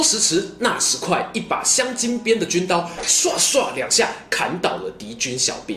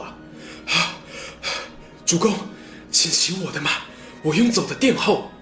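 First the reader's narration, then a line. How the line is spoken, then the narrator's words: Panting, breathless. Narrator (Chinese): 曹洪喘着气说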